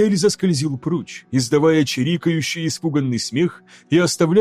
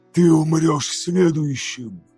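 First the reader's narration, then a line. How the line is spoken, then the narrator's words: Breathed after someone leaving. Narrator (Russian): Выдохнул Лоргар в удаляющуюся спину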